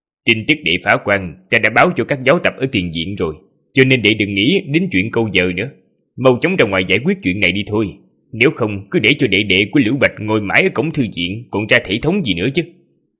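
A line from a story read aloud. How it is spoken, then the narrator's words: Cold, calm. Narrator (Vietnamese): nhị sư huynh lại không hề nổi giận, chỉ lạnh lùng mà nói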